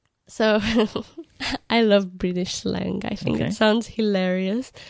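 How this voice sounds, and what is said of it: Usual voice. Nothing is said of it.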